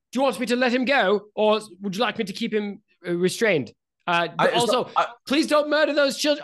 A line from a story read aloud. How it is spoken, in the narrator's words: Fala Lafayette has called out